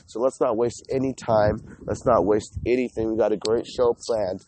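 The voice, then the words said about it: Sick-sounding voice. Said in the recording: “As you can hear by my voice, I'm still getting over the sick.”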